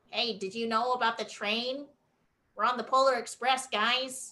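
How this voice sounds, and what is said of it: Nerdy Poindexter-style character voice. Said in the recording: “the typical nerd voice kind of thing... the Poindexter. It's the Poindexter voice.”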